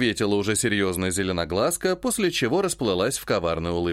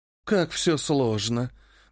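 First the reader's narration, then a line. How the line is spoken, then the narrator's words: Sighing reply. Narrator (Russian): вздохнула в ответ Моро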